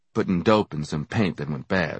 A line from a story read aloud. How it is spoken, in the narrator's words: I said, wearily, annoyed with all the questions